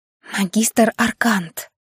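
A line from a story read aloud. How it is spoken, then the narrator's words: Whispered reply. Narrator (Russian): шепотом ответила Доминика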